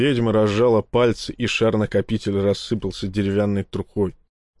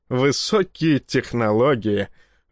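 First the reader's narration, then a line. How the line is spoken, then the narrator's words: Laughing, then coughing. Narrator (Russian): рассмеялся он и сразу закашлялся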